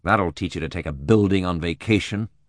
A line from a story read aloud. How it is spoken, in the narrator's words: I muttered uncharitably